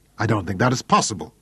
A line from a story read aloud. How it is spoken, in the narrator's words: the brig snapped angrily